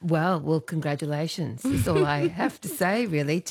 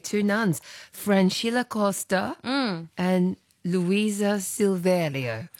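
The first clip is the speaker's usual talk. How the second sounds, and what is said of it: Put-on Brazilian accent, rolled R's. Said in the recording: “with our best Brazilian accent. Impressive, isn't it? ... You just roll those R's.”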